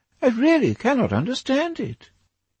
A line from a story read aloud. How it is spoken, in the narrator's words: exclaimed the old lady